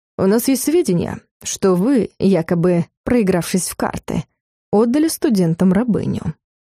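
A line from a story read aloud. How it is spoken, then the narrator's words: Calm. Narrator (Russian): спокойно сказал Дарс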